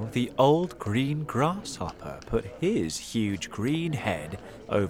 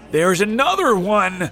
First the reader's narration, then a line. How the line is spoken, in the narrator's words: shouted the most important firefighter